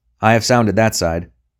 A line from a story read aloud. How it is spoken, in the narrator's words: said the first voice sharply